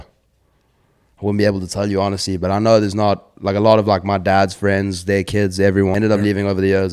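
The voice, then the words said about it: Faded South African accent. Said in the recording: “South African, but it's got a little bit of a twang to it ... it does slowly start to fade ... I've got a South African accent, but even the South Africans will tell you, you know, it's a little bit of a dodgy one. It's a little bit of an off-brand accent”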